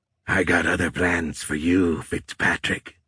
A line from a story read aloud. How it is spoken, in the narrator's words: the creature said in a crackly voice